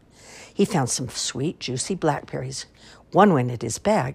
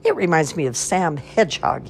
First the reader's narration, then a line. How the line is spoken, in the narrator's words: chuckled